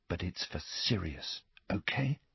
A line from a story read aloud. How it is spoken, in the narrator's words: he told her, whispering